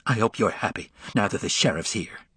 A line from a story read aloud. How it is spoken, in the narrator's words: spat out the words